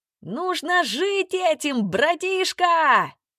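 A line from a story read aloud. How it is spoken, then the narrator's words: Shouted. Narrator (Russian): крикнул Квин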